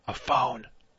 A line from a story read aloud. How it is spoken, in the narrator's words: whispered in his ear